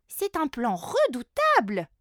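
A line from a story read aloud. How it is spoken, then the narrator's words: Exclaimed. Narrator (French): s'exclame Flora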